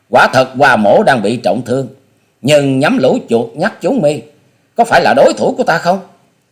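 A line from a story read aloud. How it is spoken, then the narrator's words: Wounded, hearty defiant laughter. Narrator (Vietnamese): Hoa Sĩ Kiệt trước tình thế không thể lùi bước, cố dẫn khí đơn điện, buông ra một chuỗi cười to hào sảng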